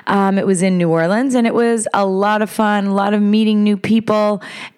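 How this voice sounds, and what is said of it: Raspy, tired voice. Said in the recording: “my voice is a little raspy. I'm a little talked out”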